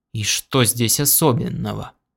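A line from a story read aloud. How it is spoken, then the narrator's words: Tired. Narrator (Russian): устало произнес Бейтс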